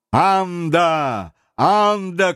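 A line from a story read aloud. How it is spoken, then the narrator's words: Shouting. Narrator (Russian): кричал Талькав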